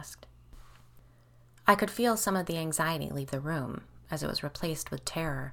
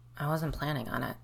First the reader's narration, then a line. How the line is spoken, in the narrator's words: I muttered